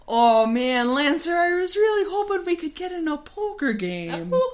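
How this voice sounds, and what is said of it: Minnesota accent drifting into Irish. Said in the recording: “I'm accidentally doing the accent again ... he's secretly from Minnesota, just so I can keep doing this accent ... that's slowly turning into Irish”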